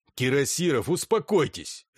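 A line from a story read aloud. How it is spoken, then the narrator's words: Barking. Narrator (Russian): рявкнул Терлецкий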